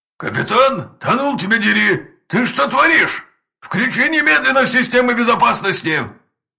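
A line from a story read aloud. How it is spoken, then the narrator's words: Commandant yelling. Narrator (Russian): орал комендант форпоста Адриан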